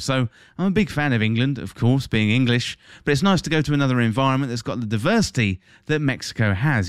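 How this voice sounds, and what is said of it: English accent. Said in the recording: “my home country, that's England if you didn't tell from the accent”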